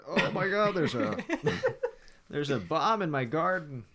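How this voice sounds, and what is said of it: Old man voice. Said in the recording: “my old man impersonation”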